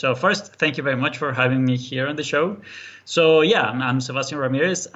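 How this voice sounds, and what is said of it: Colombian accent speaking English. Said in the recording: “I'm actually from Colombia, South America. That's why the accent.”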